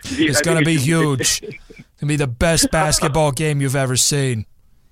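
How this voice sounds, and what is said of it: Imitates another person's voice. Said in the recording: “This is scary good impression there.”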